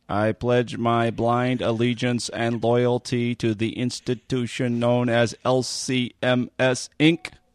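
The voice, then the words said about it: Unconvincing Stephen Hawking impression. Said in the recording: “That was my Stephen Hawking impersonation. ... Not convincing.”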